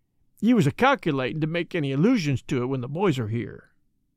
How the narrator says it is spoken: he added, with a short sigh

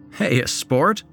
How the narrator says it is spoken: Ben's father, Dave Ross, chuckled

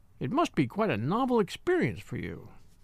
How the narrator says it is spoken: she said dryly

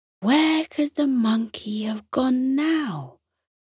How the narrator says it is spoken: Darla sighed

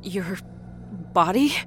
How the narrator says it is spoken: Rita whimpered

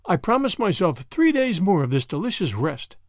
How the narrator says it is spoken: said Madame Beaumont

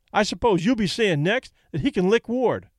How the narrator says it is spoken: Kelly snapped

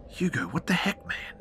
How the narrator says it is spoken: I whisper hissed

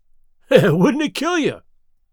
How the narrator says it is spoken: He cried

